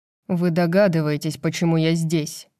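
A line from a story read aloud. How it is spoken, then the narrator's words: Cold. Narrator (Russian): холодно произношу я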